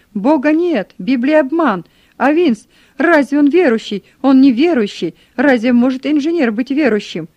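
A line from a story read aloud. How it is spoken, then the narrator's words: Frenzied shouting. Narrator (Russian): кричал, буквально беснуясь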